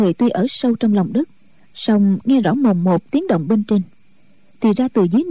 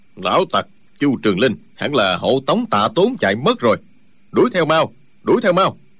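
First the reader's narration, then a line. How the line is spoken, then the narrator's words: Deep gruff voice. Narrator (Vietnamese): một giọng ồm ồm nói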